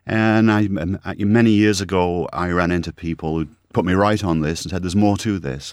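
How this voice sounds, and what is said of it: Mixed British-Canadian accent. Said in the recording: “as you can tell from my interesting accent, I'm a cross between Brit and Canadian now.”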